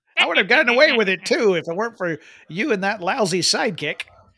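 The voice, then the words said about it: Imitates the Penguin villain's voice. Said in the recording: “Great impression. ... I don't know which penguin I was even attempting to impersonate at that point, because it didn't sound like any of them.”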